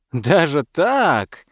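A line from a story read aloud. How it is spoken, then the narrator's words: Hearty chuckle. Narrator (Russian): охотник от души хохотнул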